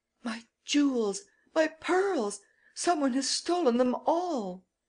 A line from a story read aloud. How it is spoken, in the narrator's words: Lady Gerlin, Miss Nelly's friend, in a state of great excitement, exclaiming